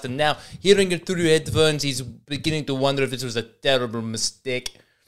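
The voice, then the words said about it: Attempted South African accent, sounding Scottish. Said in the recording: “learns a speech from a certain accent in real time ... this South African accent ... I'm crossing over with Scottish a lot in my attempt to do a South African accent”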